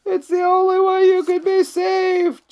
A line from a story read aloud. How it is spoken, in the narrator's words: Jonah cried